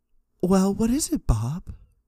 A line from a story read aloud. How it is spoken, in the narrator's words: said quietly